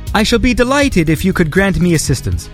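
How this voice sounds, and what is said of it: Reading in a fake accent. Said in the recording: “maybe I should read this with like a fake accent”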